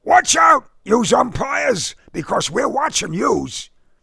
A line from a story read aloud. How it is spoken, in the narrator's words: bellowed